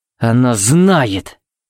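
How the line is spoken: Growling. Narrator (Russian): буквально прорычал Тикс

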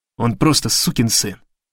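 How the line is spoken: Muttering. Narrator (Russian): пробормотал Гарри

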